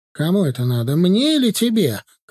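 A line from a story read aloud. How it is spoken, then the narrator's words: Shouting at someone. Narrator (Russian): кричала она на Женю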